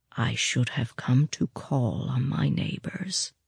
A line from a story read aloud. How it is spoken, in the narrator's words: he said quietly